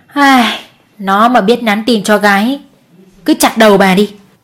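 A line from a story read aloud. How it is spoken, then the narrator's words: Mother's weary sigh. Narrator (Vietnamese): Mẹ chú Đại thở dài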